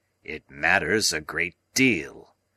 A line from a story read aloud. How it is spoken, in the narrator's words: said Challenger gruffly